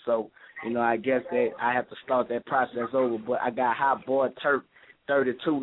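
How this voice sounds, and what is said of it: Noticeable regional accent. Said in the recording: “I love your accent. Oh, my God. Like, Hermit. Like, I love that.”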